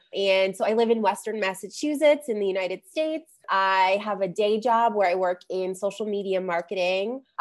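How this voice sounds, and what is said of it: Slightly off, congested voice. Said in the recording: “I have a little bit of a cold today, so I sound a little off”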